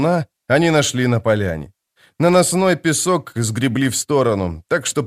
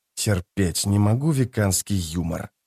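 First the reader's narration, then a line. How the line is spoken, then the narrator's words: Whisper. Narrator (Russian): прошептал он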